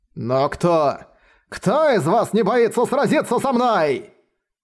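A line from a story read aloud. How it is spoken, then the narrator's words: Shouted. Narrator (Russian): крикнул он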